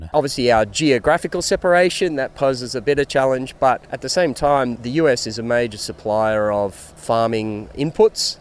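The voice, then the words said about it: Australian accent. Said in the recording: “I just couldn't resist that Australian accent.”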